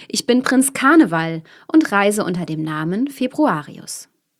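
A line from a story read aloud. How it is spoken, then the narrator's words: Man calling out. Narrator (German): rief der Mann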